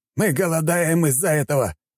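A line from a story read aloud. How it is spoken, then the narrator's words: Shouted. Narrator (Russian): выкрикнул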